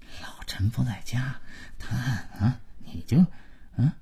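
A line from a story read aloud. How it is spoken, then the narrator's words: Low but audible muttering. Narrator (Chinese): 马老头跟老婆小声，但足以让姥姥听见的嘀咕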